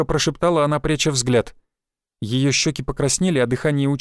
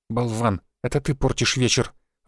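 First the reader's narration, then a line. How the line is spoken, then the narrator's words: Disappointed mutter. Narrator (Russian): разочарованно буркнула Софья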